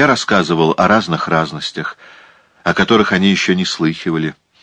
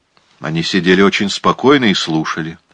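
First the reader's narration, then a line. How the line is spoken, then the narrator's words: Plain. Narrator (Russian): сказал полковник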